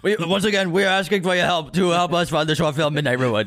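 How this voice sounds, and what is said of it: Imitates another person's voice. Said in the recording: “Is that your Bernie impression? ... Yeah, this is my Bernie Sanders impression.”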